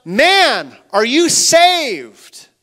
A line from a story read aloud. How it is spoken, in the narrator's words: He called out